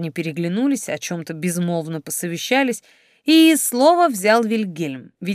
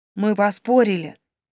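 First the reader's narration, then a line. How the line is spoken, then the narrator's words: Heavy-sighing admission. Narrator (Russian): тяжко вздохнув, признался Гарольд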